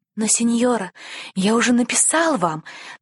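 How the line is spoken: Boy's hurried nervous whisper. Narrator (Russian): торопливо прошептал мальчик, боясь потерять мужество

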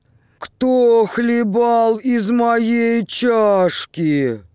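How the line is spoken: Thin squeaky child voice. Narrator (Russian): Мишутка запищал тонким голосом

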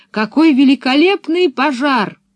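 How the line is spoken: Shout. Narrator (Russian): она крикнув

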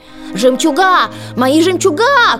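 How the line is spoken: Shouted. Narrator (Russian): крикнула Анастасия

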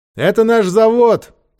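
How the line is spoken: Shouting. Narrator (Russian): прокричал Ольге Георгий

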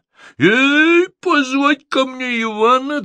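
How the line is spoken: King's hasty shout. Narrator (Russian): царь поспешно закричал

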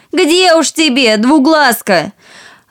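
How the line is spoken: Sisters shouting. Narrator (Russian): Сестры закричали

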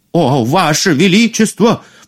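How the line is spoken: Sharp cry. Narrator (Russian): вскрикнул повар

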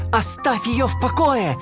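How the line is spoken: Shout. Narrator (Russian): закричал он

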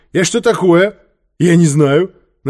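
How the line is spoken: Mocking. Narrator (Russian): насмешливо объявил Квакин

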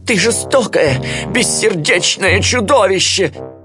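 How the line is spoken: Shouting. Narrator (Russian): закричал отец Так

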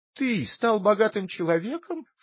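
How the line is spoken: Said with ringing laugh. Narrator (Russian): сказала лисица и звонко рассмеялась

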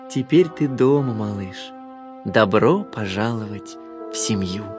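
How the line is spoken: Tender mother's voice. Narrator (Russian): Мама-лебедь нежно сказала

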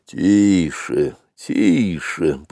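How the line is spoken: Grumbling wild elephant. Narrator (Russian): пробурчал дикий слон Хатхи

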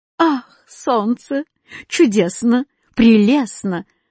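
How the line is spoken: Joyful shouting. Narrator (Russian): радостно выкрикивал восклицательный знак

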